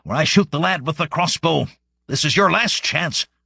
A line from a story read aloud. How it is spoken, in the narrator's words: shouted leader